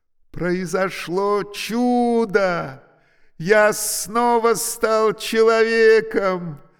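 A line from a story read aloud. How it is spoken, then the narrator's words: Jubilant voice. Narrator (Russian): сказал ликующим голосом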